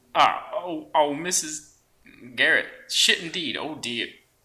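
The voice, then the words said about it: Voicing the character EB. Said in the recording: “somebody wants to play EB ... He's got the impersonation here.”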